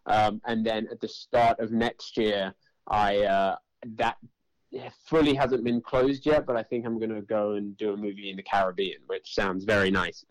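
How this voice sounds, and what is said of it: London English accent. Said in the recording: “People could tell by your voice, you're not from Brooklyn originally. Are you from London?”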